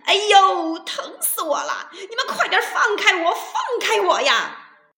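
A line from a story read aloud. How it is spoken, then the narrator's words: Pained shouting. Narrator (Chinese): 大灰狼痛得大喊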